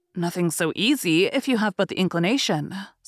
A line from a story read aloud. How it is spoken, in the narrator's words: said Elizabeth